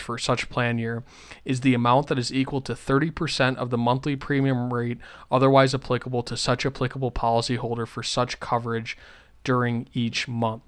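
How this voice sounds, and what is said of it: Reads very fast. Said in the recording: “trying to listen to me say that. That's why I said it quickly.”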